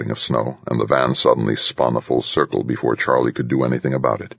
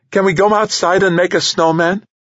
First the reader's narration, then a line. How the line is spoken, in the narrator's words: piped up